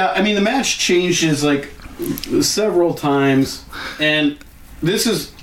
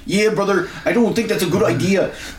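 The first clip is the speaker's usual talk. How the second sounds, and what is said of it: Imitates another person's voice. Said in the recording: “That's my Teddy impression.”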